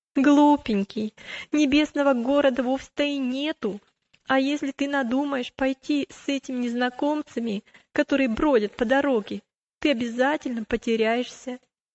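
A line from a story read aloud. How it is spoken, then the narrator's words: Laughing reply. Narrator (Russian): она только рассмеялась и сказала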